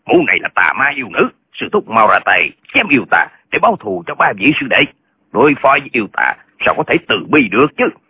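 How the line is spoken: Angry speech. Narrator (Vietnamese): Tân Quốc Lương tức giận nói

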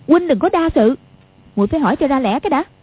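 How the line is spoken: Angry woman speaking. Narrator (Vietnamese): Quách Phù đang tức giận, nói

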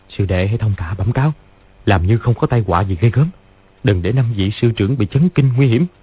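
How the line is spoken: Soft instruction. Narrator (Vietnamese): Lý Chí Tường dặn khẽ

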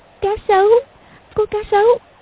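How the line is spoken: Trembling, frightened. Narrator (Vietnamese): run rẩy nói

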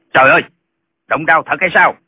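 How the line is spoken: Alarmed exclaiming. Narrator (Vietnamese): Lệnh Hồi Xung la lên

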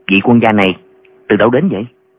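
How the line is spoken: Soft question. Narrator (Vietnamese): hỏi khẽ

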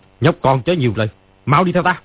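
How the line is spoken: Angry. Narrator (Vietnamese): Ni Ma Tinh tức giận nói

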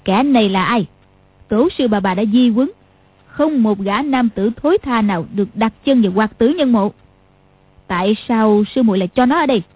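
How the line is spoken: Cold question. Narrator (Vietnamese): Lý Mạc Sầu lạnh lùng chỉ Dương Quá hỏi

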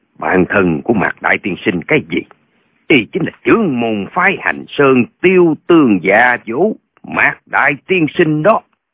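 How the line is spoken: Cold, grizzled man. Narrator (Vietnamese): Gã râu đốm bạc nói một cách lạnh lùng

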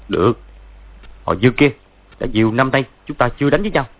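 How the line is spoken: Harsh gritted voice. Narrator (Vietnamese): Võ Tu Văn gằn giọng nói

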